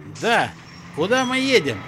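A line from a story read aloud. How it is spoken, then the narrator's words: Shouting across cabin. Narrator (Russian): крикнул Джон на весь салон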